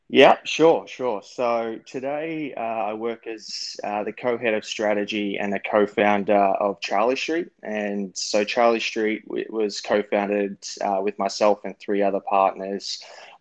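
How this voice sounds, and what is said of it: Australian accent. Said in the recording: “he's originally from Australia, as you can tell by the accent”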